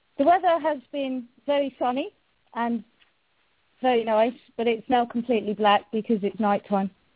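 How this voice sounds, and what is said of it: British accent. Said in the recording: “they're in love with your voice... what the weather's like in the UK today... my favorite accent out of all the accents of the world”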